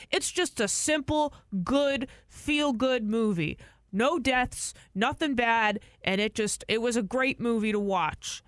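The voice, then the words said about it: Imitates a dad's voice. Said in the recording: “I like your my dad voice? Dad voice”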